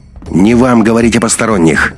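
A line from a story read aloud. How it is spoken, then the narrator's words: Suddenly sharp. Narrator (Russian): неожиданно резко вступил Андрей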